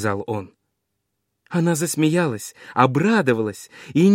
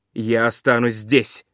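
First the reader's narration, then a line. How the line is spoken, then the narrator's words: Plain. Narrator (Russian): сказал Персей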